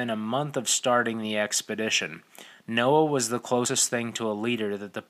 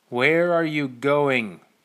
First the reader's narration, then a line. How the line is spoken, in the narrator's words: The stranger spoke loudly, in a voice that seemed like it had no business belonging to such a disheveled creature